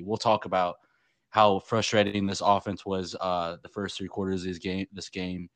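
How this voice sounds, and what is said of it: Hoarse, strained voice. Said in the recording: “my voice is like still out from yelling the whole day”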